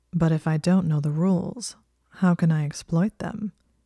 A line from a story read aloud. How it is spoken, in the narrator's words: He asked in a low purr